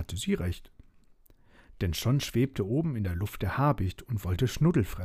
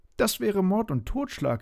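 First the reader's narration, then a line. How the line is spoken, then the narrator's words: Exclaimed. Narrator (German): rief Schnuddel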